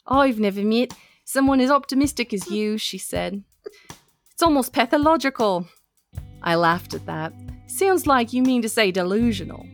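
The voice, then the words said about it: Put-on Australian accent slipping British. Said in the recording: “I'm sorry if the accent like doesn't doesn't stay ... I can hold an English accent, but Australian's a little hard ... Oh, sorry, I went British.”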